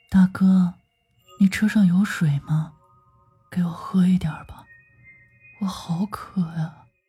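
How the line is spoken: Quiet woman. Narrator (Chinese): 这个女子就小声地说

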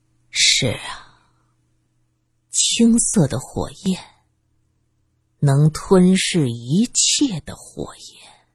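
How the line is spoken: Excited, joyful. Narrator (Chinese): 刘永庆高兴的 兴高采烈的介绍着

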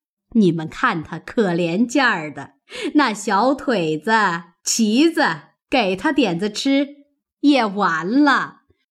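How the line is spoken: Laughing. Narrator (Chinese): 贾母笑道

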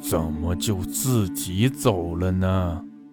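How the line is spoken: Eerie distant unreal voice. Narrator (Chinese): 阴森森的声音遥远极不真实

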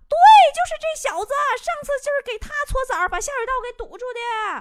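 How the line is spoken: Shouting. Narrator (Chinese): 那搓澡的就喊

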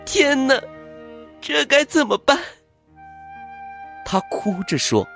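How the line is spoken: Loud sobbing. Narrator (Chinese): 公主一看满地碎片，放声大哭起来

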